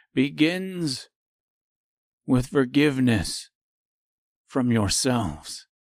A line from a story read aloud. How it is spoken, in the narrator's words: continued the stranger calmly and quietly